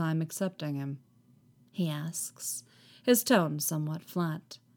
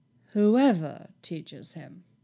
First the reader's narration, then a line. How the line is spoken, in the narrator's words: he repeats, his voice echoing with cool disbelief